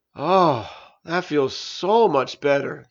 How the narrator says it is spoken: Juice sighed

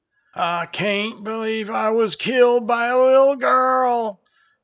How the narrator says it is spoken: groaned the injured general

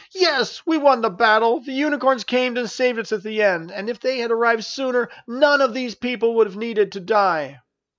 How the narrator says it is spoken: Nancy … shouted

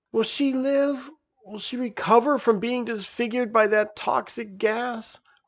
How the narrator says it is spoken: croaked Mars between sobs

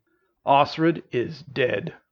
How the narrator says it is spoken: Orvin assured her in a stern voice

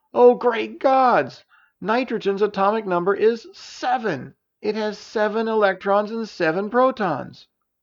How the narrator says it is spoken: Elisa cried out

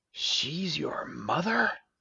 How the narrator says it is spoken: in terror as she whispered

